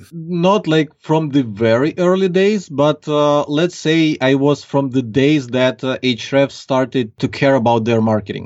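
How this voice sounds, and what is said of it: Strong Ukrainian accent in English. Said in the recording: “I can detect a slight accent you've got there... nice strong accent... Ukrainian... the Ukrainian accent is pretty strong”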